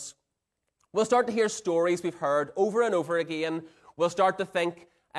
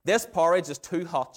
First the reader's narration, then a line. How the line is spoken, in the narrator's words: she said